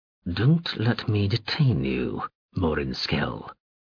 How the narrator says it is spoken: Gergay said coldly

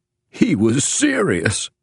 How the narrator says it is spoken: Clemens growled into the laughter

